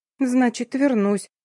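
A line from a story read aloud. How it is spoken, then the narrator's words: Forced, uncertain. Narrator (Russian): выдавила она неуверенно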